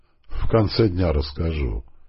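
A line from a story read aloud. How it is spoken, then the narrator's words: Chuckling. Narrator (Russian): хохотнул Панкрашкин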